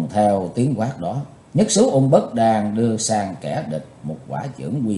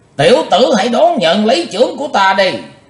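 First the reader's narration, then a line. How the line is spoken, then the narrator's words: Thunderous shout. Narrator (Vietnamese): quát như sấm nổ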